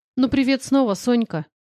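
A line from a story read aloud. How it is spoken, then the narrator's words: Mocking. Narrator (Russian): его глумливых слов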